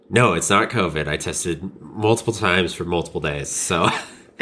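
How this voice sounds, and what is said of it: Sick-sounding voice. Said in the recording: “I'm a bit sick, yeah. I have been dealing with some sickness for the last week and a half or so. So if you hear that in my voice”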